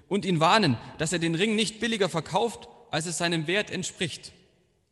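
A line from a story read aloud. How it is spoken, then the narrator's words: Calling back. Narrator (German): rief er zurück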